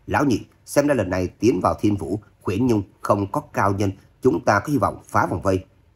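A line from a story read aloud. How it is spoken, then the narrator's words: Loud commanding shout. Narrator (Vietnamese): Độc Cô Phong cao giọng quát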